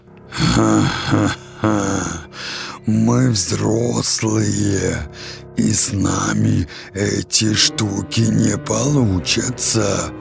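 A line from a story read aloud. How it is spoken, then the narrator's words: Roared, laughing. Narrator (Russian): проревел Фав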